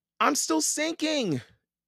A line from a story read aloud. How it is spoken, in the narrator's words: Annie wailed